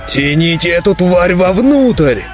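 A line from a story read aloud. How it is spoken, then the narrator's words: Roaring. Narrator (Russian): взревел Неврон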